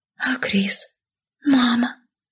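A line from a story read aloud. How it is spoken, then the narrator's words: Whisper. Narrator (Russian): прошептала я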